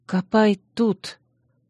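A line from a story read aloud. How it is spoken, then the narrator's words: Whisper. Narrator (Russian): прошептала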